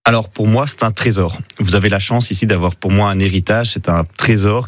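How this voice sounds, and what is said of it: Belgian French accent. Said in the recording (French): “Vous êtes belge, hein, on l'a entendu ouais. un peu peut-être avec votre accent.”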